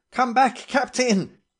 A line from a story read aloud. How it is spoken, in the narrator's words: I yelled